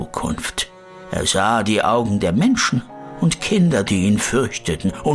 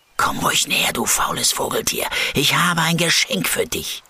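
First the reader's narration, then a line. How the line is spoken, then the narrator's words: Whispering. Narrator (German): flüstert Min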